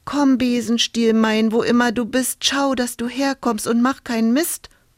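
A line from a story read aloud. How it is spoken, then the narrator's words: Calling out. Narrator (German): rief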